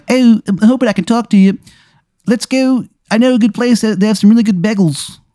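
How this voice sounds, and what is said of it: Exaggerated grating Philadelphia accent. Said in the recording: “his accent is fucking horrible, dude ... like the sound of like nails on a chalkboard ... His accent is just Philly trash”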